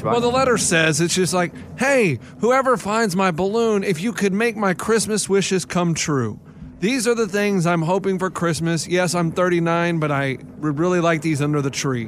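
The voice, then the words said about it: Adult talking like a young kid. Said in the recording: “Why are you talking like a young kid right now? ... He's in character.”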